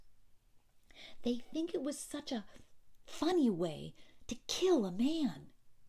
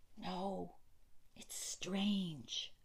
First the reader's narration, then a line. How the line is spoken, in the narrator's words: breathed Mrs